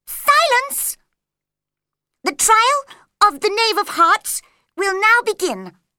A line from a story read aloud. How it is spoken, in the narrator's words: the white rabbit called out loudly